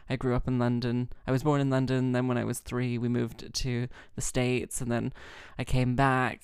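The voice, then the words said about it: Mixed London and Texan accent. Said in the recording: “oh, it's London via Texas ... the accent just sort of stuck around ... I didn't realize it was a real accent. I thought you were doing a character.”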